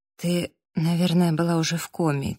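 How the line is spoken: Quiet. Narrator (Russian): тихо сказала Эбби

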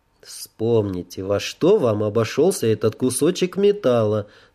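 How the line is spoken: Calm objection. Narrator (Russian): спокойно возразил я

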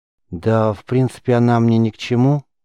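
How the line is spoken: Mumbling. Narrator (Russian): промямлил Риз

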